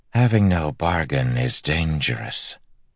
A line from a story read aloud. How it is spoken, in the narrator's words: the eelfin said in a smooth voice